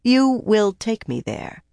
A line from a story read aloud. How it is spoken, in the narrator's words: she said firmly